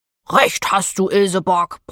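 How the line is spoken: Grumbled. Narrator (German): brummte Theo

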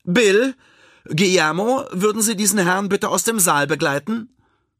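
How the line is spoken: Calling out. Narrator (German): Frieda ruft

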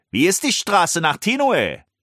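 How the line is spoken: Cheerful call. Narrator (German): rief Bast fröhlich

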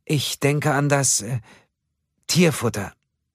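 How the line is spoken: Hesitant, frightened. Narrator (German): sagte Ölver zögernd, sie war kreideweiß im Gesicht

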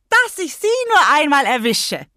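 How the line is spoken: Carefree coarse shouting. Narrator (German): schrie sie ganz unbekümmert mit einer derben Stimme

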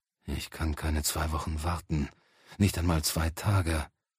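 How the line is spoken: Big man's whisper. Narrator (German): flüsterte der große Mann

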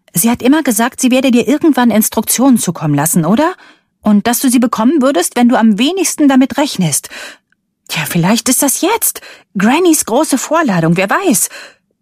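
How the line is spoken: Loud defiant voice. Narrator (German): Rebeccas Stimme klang laut und trotzig, weil ihr vermutlich klar wurde, wie ungeheuerlich ihre Vermutung war

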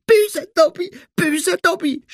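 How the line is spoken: Screaming. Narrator (German): schrie er

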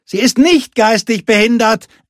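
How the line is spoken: Boy calling from inside. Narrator (German): rief der Junge irgendwo im Hütteninneren

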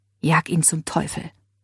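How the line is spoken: Whispering. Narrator (German): flüsterte Leila ihr zu

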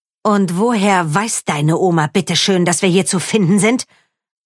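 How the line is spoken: Hissing angrily. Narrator (German): fauchte sie

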